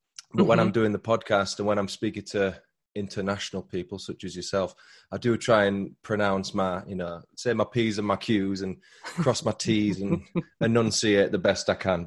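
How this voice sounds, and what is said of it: Moderate Northern English Yorkshire accent. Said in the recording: “the voice I'm speaking to you now is kind of middle ground. So it's not what I would call broad, because I'm from Northern England, a place called Yorkshire, which is quite a strong accent”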